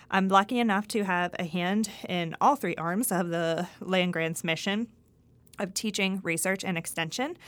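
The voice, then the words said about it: Pennsylvania accent. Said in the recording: “I'm originally from Greensburg, Pennsylvania. If you can't tell from my accent, I am not a Mississippian originally”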